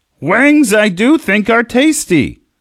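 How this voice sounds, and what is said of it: Bad Yoda impression. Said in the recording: “That's a bad impression, but it is Talk Like Yoda Day.”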